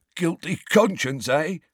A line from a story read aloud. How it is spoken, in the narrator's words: He wheezed